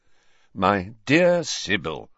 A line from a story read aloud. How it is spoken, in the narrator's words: said Dumbledore in a slightly exasperated voice